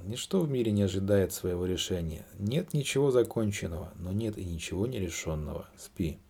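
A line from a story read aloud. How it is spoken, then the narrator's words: Soft chuckle. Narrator (Russian): Дон Хуан мягко усмехнулся и сказал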